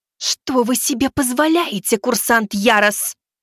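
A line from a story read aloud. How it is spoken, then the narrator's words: Hissing exhale. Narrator (Russian): С шипением, выпустив воздух, произнесла Элиза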